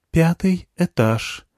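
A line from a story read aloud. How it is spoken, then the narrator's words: Gentle female voice. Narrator (Russian): сказав нежным женским голосом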